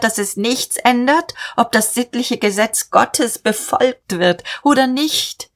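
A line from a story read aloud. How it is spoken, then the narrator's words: Called out. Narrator (German): rief er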